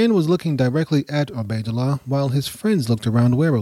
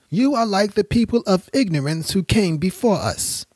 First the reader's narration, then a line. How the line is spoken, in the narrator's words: one of the men yelled